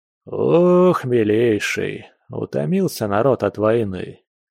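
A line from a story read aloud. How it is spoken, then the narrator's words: Weary sigh, general. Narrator (Russian): устало вздохнул генерал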